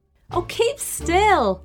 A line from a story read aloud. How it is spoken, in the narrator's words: she yelled